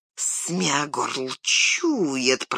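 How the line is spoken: Disgusted angry hiss. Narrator (Russian): прошипел он с отвращением и злобой

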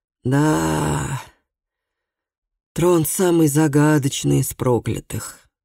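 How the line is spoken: Sighing. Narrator (Russian): вздохнул Ара

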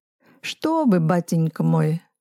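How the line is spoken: Laughing. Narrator (Russian): рассмеялся Блохопулов

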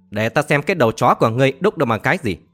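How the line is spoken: Furious, harsh shout. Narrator (Vietnamese): Thanh Diệp Tử La Sài tức giận quát vàng, gằn giọng nói

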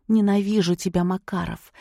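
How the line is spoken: Indignant whisper. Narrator (Russian): шепотом возмутилась Олеся

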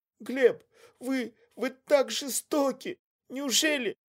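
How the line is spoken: Mumbled between sobs. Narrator (Russian): Между всхлипами пробормотала Злата Квашневич

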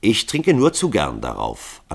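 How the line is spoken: Calm. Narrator (German): antwortete Hall ruhig

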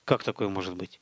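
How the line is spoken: Mutter. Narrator (Russian): пробормотал Столяров

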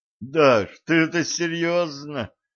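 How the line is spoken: Moaning. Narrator (Russian): простонал Валентин

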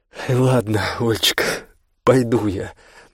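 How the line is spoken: After laughing. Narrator (Russian): засобиралась она, насмеявшись

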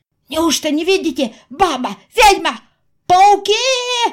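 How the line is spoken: Shouting, group. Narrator (Russian): кричали они

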